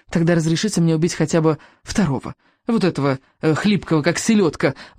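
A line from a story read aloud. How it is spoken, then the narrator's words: Pleading. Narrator (Russian): взмолился Элвин Вероломный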